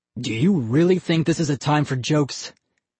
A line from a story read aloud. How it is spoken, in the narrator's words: Ian stammered